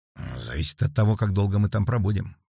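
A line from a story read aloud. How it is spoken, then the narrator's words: Muttered. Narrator (Russian): пробормотал доктор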